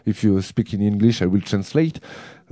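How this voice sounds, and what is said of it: Noticeably accented English. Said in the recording (French): “vous verrez que j'ai un super accent.”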